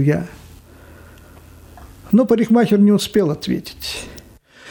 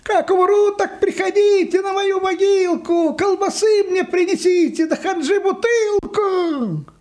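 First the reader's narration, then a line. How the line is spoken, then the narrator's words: Distant shouting. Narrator (Russian): Йоська кричал где-то уже в отдалении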